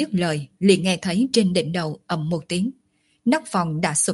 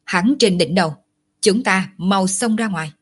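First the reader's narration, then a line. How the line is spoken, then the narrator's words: Sudden alarmed loud speech. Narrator (Vietnamese): Lòng nhãn sắc mặt thoáng biến đổi, đột nhiên lớn tiếng nói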